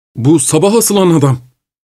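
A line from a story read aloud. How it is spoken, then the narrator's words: Crying out. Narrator (Turkish): diye haykırdı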